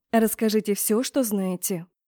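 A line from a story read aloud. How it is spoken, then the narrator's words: Snort. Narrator (Russian): темный хмыкнул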